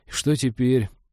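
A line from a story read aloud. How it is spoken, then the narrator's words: Gloomy question. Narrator (Russian): уныло поинтересовался свояк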